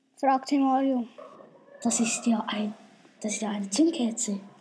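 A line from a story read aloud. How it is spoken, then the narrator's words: Plain. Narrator (German): sagte Albert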